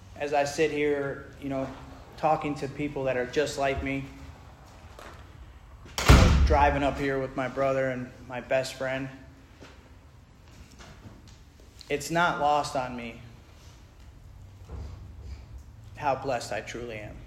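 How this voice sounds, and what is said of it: Emotional, choked-up voice. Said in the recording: “I'm a little emotional tonight.”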